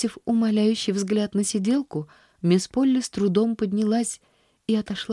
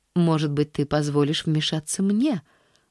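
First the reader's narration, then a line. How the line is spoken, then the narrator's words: Serene tone. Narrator (Russian): начала она самым безмятежным тоном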